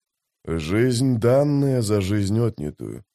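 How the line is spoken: Muttering. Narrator (Russian): пробормотал Маппо

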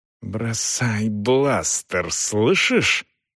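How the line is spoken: Hissed. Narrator (Russian): прошипела она

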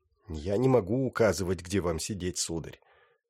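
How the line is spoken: Polite, through clenched teeth. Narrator (Russian): вежливо процедила

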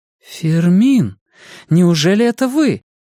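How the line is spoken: Astonished exclamation. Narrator (Russian): изумленно воскликнула Алисия

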